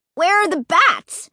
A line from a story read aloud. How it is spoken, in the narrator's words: He cried